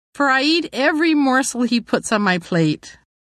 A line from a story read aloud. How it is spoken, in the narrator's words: I laughed